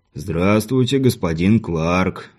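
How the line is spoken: Sighing greeting. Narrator (Russian): вздохнув, поздоровался кузнец

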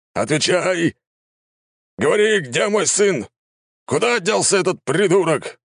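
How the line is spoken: Roaring emperor. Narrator (Russian): взревел император

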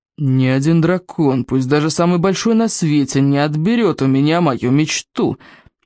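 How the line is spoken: Through clenched teeth. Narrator (Russian): процедил Норберт сквозь стиснутые зубы

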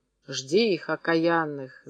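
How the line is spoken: Grumbling old man. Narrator (Russian): заворчал старик

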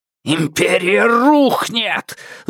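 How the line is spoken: Angry growl. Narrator (Russian): злобно зарычал он

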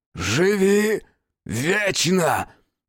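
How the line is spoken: Hoarse chorus, coughing blood. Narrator (Russian): прохрипел я в унисон со своими ближниками, харкая кровью

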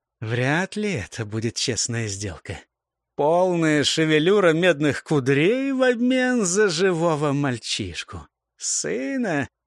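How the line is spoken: Hissed. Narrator (Russian): он прошипел это слово

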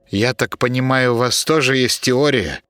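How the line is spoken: Sigh. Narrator (Russian): вздохнул Вениамин

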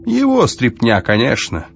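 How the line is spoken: Grumbled. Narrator (Russian): проворчал Кристиансен

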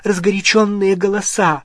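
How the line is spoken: Breathless exhale. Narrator (Russian): выдохнула миссис Уизли

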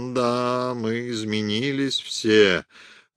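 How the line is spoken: Sighing, sated. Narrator (Russian): вздохнула, будто бы насытясь, и сказала

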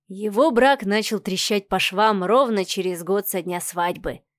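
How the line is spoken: Wry grunt. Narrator (Russian): хмыкнул Михаил

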